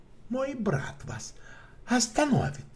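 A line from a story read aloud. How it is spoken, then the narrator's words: Calm. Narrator (Russian): спокойно сказал Шерлок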